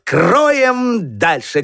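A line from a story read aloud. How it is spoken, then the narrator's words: Shout. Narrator (Russian): крикнул Петька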